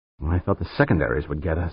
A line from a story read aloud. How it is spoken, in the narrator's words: Dan muttered